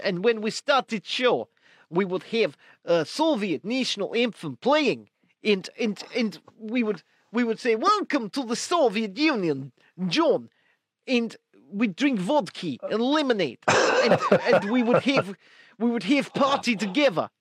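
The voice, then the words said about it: Put-on Russian accent. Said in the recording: “Do you like my Russian accent? ... I think the German one sounded more Russian”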